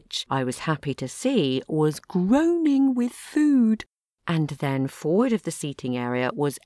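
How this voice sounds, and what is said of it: Usual voice. Nothing is said of it.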